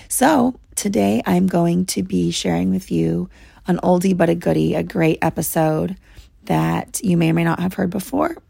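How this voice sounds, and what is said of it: Hoarse, failing voice. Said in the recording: “I have laryngitis. I am losing my voice.”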